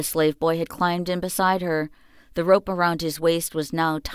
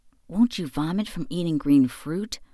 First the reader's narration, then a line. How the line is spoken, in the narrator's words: whispered Xingxing